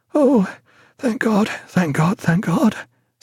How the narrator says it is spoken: said Martin, his voice broken with the horror of it

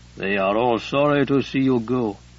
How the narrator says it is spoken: Eumenes murmured

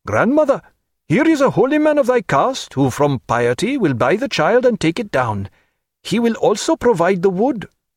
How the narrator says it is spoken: The man felt their qualified approval, and called out

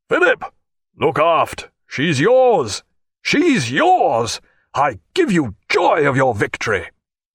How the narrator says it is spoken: through the noise Jack cried again

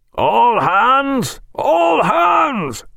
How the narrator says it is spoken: roared Bonden right aft

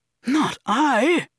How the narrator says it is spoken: Didi exclaimed in a hurt tone

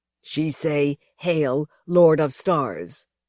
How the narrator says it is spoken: growled one of her squat escorts in Pigeon Galactic

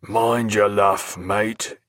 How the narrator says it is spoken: in a hoarse growl

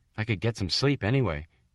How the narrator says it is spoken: he said

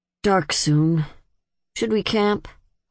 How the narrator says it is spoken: Holdfast asked in a reluctant tone

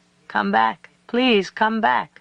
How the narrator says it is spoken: the young man called out

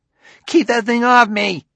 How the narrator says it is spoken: Clusar yelled

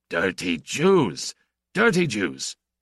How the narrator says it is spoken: screamed

